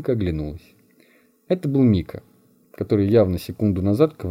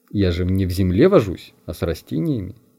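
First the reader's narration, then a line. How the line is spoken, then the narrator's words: Calm objection. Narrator (Russian): спокойно возразила Мунька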